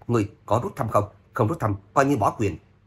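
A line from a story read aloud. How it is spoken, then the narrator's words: Loud angry elder's shout. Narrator (Vietnamese): Trưởng lão Bình Phán giận dữ quát lớn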